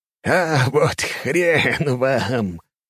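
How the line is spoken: Short laugh. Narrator (Russian): хохотнул Фильк

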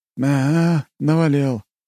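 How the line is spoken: Sad smirk. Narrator (Russian): грустно усмехнулся капитан

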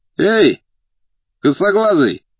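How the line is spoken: Shout. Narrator (Russian): крикнул один из деловых

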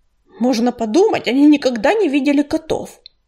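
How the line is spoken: Grumbling. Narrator (Russian): проворчал Ураган

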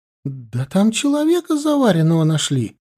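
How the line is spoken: Cheerful. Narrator (Russian): радостно выложила она

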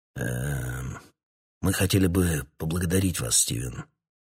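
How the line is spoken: Hoarse. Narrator (Russian): хрипло проговорил Ларкин

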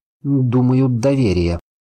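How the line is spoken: Uncertain. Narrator (Russian): ответил я неуверенно

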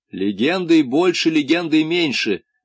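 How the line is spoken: Irritated. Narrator (Russian): раздраженно сказал Дон Кондор

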